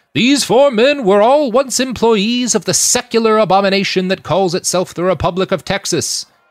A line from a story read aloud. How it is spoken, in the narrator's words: he said in his booming stentorian voice